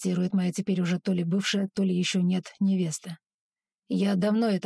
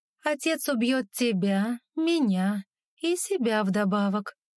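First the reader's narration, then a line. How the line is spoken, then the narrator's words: Calm, thoughtful. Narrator (Russian): произносит она таким спокойным, задумчивым тоном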